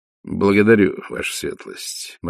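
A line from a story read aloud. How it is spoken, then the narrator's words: Gloomy. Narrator (Russian): мрачно ответил тот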